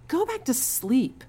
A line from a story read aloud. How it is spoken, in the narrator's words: cried Clarissa's mother